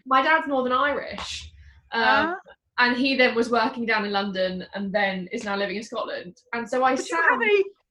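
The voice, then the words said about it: English accent. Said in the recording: “You have a perfectly English accent.”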